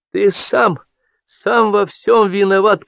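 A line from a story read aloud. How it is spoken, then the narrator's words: Tearful reproach. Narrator (Russian): корила сквозь слезы Анюта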